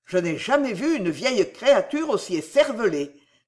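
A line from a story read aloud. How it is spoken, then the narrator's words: Angry exclamation. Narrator (French): s'écria Sam colériquement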